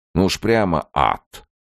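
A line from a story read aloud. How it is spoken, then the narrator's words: Skeptical snort. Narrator (Russian): хмыкнул он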